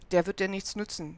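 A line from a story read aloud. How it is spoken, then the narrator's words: Plain. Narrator (German): sagte der Lappen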